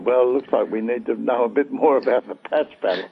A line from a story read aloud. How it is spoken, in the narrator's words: we all laughed at one another and said